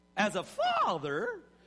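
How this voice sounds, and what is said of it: Voice jumps very high in pitch. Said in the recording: “my voice went way up there”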